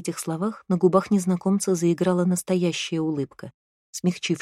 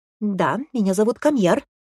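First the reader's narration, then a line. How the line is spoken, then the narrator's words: Sharp declaration. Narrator (Russian): резко заявил брат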